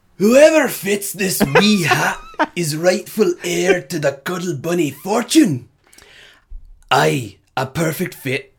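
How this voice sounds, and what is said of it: Put-on Scottish accent. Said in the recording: “We do accents on this show. ... I got a lot of Scottish friends. ... they won't be my friends if they hear me murder the accent. ... Worthy of Mel Gibson himself.”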